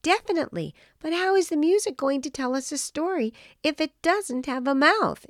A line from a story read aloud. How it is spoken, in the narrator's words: exclaimed Irwin